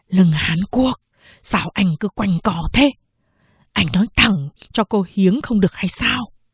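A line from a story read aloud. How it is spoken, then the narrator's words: Quick, quiet speech. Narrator (Vietnamese): nhanh miệng, nói khẽ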